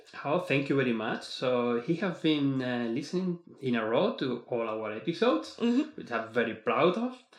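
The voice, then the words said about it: Non-native English accent. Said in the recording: “he's still having issues with my accent... I really, really try to improve as much as I can”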